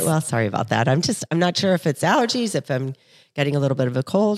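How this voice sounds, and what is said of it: Raspy, slightly off-pitch voice. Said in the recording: “Your voice actually sounds a little high right now... we might get a raspy, deeper voiced ... today”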